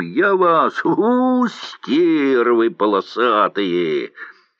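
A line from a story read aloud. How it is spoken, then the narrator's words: Angry shouting. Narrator (Russian): гневных окриков Йоськи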